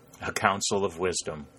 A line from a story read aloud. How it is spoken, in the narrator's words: chuckled Harry